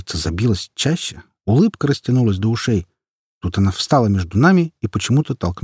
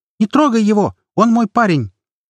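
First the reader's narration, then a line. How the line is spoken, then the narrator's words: Sudden shout. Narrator (Russian): Маша вдруг крикнула окрыляющую фразу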